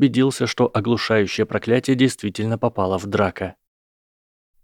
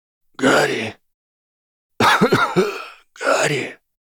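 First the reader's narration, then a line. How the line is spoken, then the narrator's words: Hoarse wheeze. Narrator (Russian): прохрипел профессор Квирл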